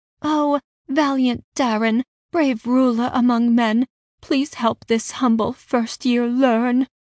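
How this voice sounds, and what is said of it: Sickly sweet imitated voice. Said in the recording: “my most sickly sweet impression”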